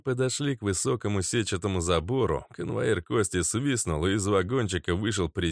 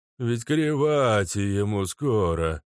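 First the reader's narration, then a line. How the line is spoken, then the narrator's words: Grumbling guard. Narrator (Russian): начал ворчать охранник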